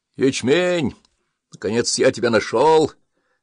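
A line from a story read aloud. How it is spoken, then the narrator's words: Old man's exclamation. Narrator (Russian): воскликнул дед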